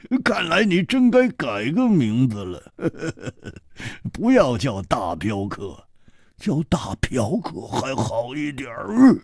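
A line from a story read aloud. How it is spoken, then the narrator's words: Hearty laugh. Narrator (Chinese): 胡铁花哈哈一笑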